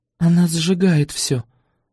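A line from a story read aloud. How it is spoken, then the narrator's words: Mumble. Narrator (Russian): пробормотала я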